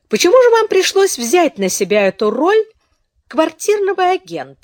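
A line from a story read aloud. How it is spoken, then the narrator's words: Forced cheerful tone. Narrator (Russian): спросила Беатрис тем же ненатурально веселым тоном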